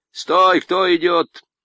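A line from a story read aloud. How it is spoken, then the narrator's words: Sentry's shout. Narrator (Russian): выкрикнул часовой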